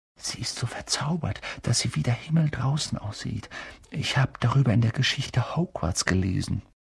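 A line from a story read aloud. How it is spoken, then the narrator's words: Whisper. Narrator (German): hörte Hermine flüstern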